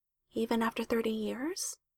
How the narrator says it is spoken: She asked quietly

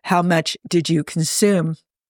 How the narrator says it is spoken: Jim chuckles

